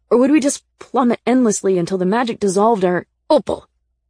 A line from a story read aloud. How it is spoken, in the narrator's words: Nick said sharply, his face pale and tight